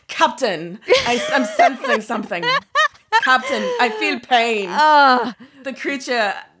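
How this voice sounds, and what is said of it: Terrible put-on character accent. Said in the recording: “That is a terrible accent in every fucking way.”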